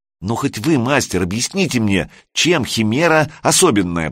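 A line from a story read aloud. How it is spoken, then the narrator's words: Pleading. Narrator (Russian): взмолился Санек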